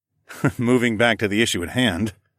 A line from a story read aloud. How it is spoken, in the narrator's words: I chuckled